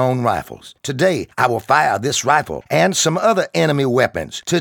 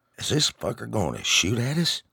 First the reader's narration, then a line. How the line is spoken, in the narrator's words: Bill whispered